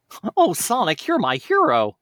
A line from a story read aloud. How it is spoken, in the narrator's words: exclaimed Miles